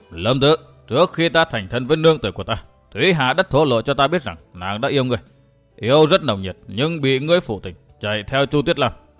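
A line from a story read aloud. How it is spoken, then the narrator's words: Stern cold voice. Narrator (Vietnamese): Gã nghiêm giọng lạnh lùng nói tiếp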